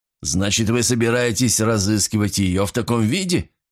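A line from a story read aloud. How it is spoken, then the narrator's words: Laughing. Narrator (Russian): рассмеялся Казета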